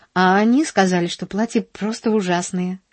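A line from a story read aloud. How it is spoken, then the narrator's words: Sighing. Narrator (Russian): вздохнула она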